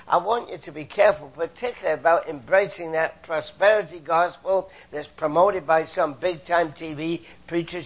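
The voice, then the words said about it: British accent. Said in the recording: “I'm a Canadian, came from Britain, as you can tell from my accent”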